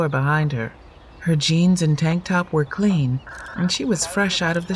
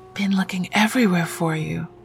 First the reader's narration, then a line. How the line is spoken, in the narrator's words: Masika whispered